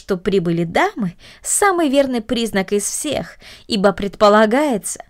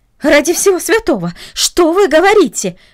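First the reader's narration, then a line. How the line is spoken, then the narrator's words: Exclamation. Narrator (Russian): воскликнула она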